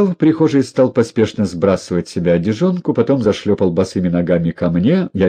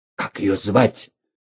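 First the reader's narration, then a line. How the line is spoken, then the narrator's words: Sinister whisper. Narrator (Russian): зловещим шепотом спросил он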